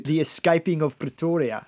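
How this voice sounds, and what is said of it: Put-on South African accent. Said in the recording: “my South African accent. ... A South African ... Accent. I was going to say Australian, no, it's South African accent.”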